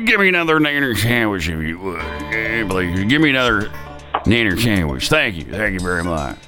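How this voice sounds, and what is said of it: Imitates another person's voice. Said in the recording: “Name this celebrity impersonation”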